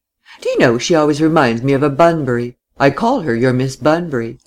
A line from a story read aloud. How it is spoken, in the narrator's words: Laura laughed